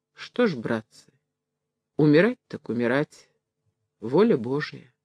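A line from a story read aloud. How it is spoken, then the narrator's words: Solemn voice. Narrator (Russian): сказал торжественным голосом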